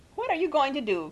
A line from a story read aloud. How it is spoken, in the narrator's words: cried Mrs